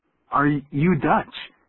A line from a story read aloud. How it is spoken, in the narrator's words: I stammered